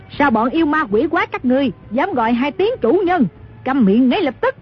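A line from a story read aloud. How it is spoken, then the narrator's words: Old woman's furious shout. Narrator (Vietnamese): Dư bà cả giận quát lên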